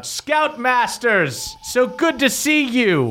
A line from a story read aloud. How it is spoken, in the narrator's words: Durlin yells out